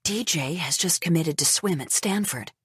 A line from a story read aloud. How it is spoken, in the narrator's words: whispers